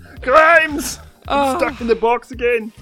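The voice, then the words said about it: Imitates another person's voice. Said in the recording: “That impression we did of Elon Musk getting his arm stuck in a Grimes”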